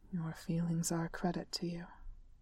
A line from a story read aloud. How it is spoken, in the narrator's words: Thorn murmured